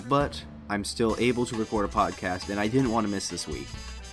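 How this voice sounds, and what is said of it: Slightly raspy voice. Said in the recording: “I had a very sore throat ... you might be able to hear my voice. It's a little more raspy than usual”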